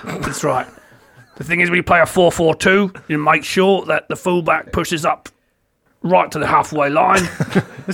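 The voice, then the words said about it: Gravelly Sean Dyche impression. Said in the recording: “take the gravel tone ... He sounds like Sean Dyche, is what he sounds like.”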